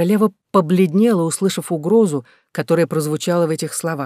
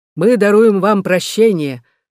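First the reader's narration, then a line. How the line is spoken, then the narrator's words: Stern reply. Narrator (Russian): отвечал Рутвен строго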